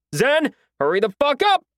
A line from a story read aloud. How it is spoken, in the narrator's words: I yelled toward the tunnel